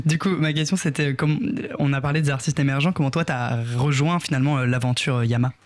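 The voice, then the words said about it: Put-on Toulouse French accent. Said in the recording (French): “je vais le dire avec l'accent toulousain”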